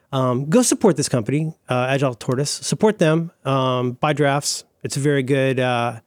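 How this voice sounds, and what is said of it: Hoarse voice. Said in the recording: “I'm getting hoarse”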